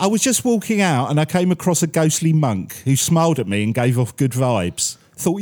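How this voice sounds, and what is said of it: Usual voice. Nothing is said of it.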